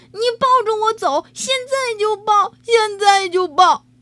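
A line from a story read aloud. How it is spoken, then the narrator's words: Loud shouting. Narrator (Chinese): 天天高喊着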